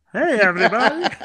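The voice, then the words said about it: Imitates another person's voice. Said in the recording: “That was a good impression,”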